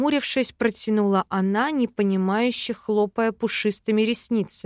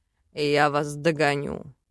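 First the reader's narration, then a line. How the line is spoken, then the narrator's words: Demonic growl. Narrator (Russian): Рыкнул демон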